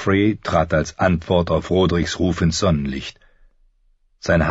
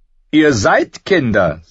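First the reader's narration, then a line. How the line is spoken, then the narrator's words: Mocking. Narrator (German): sagte er spöttisch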